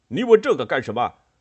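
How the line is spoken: Angry. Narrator (Chinese): 冠太郎怒道

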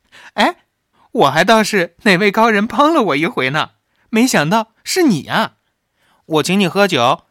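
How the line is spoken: Girl exclaiming, laughing. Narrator (Chinese): 那少女哎呀一声，笑道

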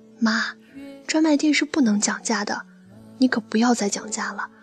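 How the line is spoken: Low voice. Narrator (Chinese): 低声告诉她

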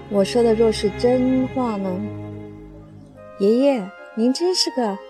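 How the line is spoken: Plain. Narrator (Chinese): 翠翠说着

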